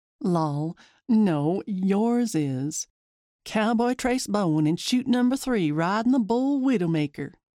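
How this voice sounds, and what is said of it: Put-on country twang. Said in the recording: “Using my twang again.”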